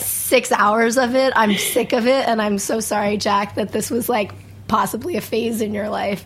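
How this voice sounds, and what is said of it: Raspy, husky voice. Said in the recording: “raspy, sexy voice”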